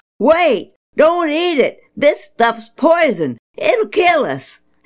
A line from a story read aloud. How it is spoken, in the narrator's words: suddenly they hollered